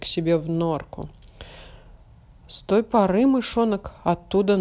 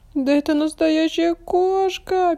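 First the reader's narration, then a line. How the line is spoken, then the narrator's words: Frightened squeak. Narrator (Russian): пискнул испуганный мышонок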